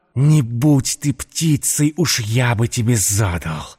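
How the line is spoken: Hissed. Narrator (Russian): прошипел Матео

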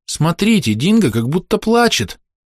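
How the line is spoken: Child's exclamation. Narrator (Russian): воскликнул маленький Джек

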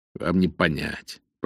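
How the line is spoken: Muttered. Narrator (Russian): пробормотал Пеннингтон

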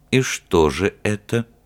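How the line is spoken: Very quiet, tense. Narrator (Russian): спросил он как мог тихо, потому что пауза затянулась и стала невыносимой

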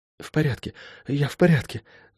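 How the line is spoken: Whispered. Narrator (Russian): прошептала она

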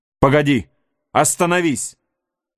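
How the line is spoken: Shouted. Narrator (Russian): крикнул Хейвард

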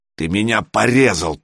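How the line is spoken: Growling. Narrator (Russian): прорычал Миша

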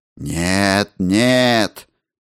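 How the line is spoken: Muffled objecting voice. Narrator (Russian): возразил я глухим голосом

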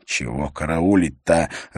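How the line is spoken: Irritated question. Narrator (Russian): раздраженно спросил его Лёкин

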